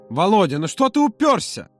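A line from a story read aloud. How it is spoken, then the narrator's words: Loud exclamation, then lowered. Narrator (Russian): воскликнул Юра так громко, что сам же оглянулся по сторонам и стыдливо понизил голос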